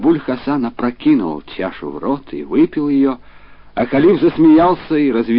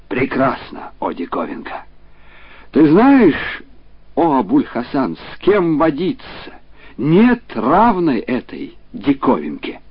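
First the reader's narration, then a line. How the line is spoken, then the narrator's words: Exclaimed. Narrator (Russian): халиф воскликнул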